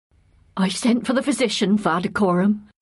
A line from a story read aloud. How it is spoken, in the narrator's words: said the woman shakily